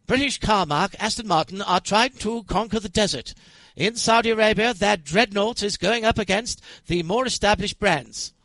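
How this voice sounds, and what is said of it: Exaggerated posh English newsreel accent. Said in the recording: “you've got to say that in a terribly English language. Accent ... this would be on the old movie tone news”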